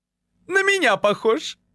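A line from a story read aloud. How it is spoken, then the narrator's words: Giggled. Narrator (Russian): хихикнул Валентин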